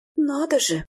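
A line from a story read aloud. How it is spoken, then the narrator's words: Exclamation. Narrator (Russian): воскликнула я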